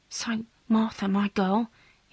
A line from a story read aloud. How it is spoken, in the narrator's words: he whispered